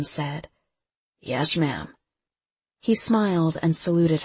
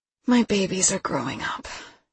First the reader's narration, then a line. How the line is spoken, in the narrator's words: she sighed